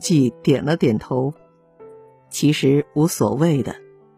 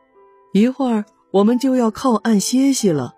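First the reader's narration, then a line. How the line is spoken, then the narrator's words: Shouting. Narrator (Chinese): 老少公喊道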